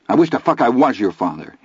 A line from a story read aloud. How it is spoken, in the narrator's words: he said angrily